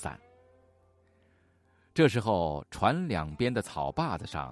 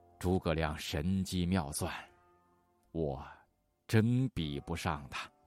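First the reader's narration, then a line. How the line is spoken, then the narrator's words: Long sigh. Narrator (Chinese): 周瑜长叹一声，说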